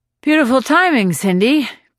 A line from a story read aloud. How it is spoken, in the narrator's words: Joe panted